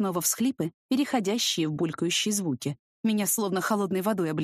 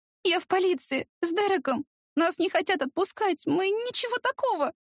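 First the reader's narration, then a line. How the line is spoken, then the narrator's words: Sobbing. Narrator (Russian): Она снова всхлипнула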